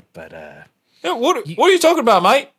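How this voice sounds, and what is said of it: Australian accent. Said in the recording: “Best accent in the universe ... Space Australia”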